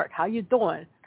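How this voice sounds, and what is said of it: Bad New York accent impression. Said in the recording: “my New York impersonation is terrible”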